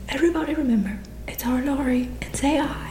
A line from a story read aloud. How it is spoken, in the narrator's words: cried Snodgrass excitedly